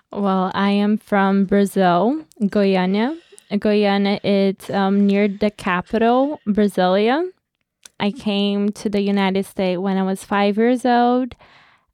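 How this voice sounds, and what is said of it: Foreign accent, non-US born. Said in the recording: “people may be able to guess from your accent ... that you were not necessarily born in the United States”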